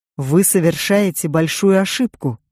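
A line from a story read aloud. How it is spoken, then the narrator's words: Policeman's growl. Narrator (Russian): прорычал полицейский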